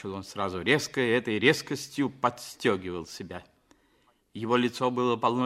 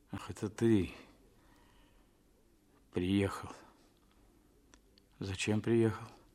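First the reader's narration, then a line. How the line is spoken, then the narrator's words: Muttering, coming to. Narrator (Russian): бормотал он, приходя в себя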